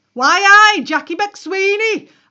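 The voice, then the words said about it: Booming broad Newcastle accent. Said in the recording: “a booming voice across the centre in a broad Newcastle accent.”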